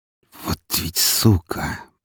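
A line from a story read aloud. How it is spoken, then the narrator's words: Hissed. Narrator (Russian): прошипела Мария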